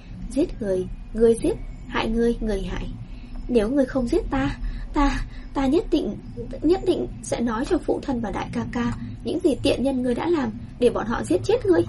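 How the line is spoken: Smiling. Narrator (Vietnamese): Tây Lương Mạt mỉm cười

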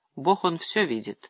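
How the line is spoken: Sighing wife. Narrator (Russian): вздохнула жена

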